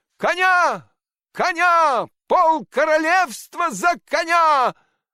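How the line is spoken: Desperate shout. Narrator (Russian): В полном отчаянии Щелкунчик закричал

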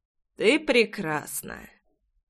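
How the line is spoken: Hoarse voice. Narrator (Russian): Хриплый голос Джексона

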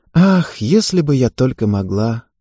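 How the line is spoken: Sad, smiling. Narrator (Russian): грустно улыбнулась Ева

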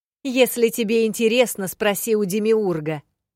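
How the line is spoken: Shouted into darkness. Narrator (Russian): прокричала я в темноту

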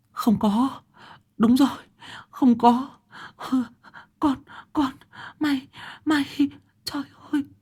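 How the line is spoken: Whimpering, near tears. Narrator (Vietnamese): bà mếu máo

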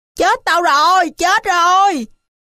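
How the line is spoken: Terrified scream. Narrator (Vietnamese): Dư kinh hãi, thấy máu, nó hét lên

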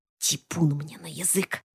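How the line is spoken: Mutter. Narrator (Russian): пробормотала Марфа

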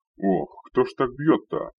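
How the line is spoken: Indignant yell from behind. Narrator (Russian): возмущенно завопил из-за моей спины Рикар

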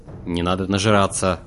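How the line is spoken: Hoarse rasp from darkness. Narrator (Russian): прохрипел мрак

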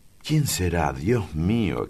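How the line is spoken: Pale, alarmed exclamation. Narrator (Spanish): exclamó, pálida

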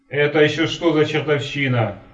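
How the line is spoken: Yelled. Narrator (Russian): заорал я

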